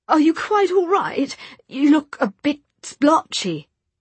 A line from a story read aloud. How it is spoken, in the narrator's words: said Henry anxiously